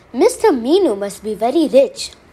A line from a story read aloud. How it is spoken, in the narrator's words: The poor man, however, thought that Minu was the name of the owner of the cows and exclaimed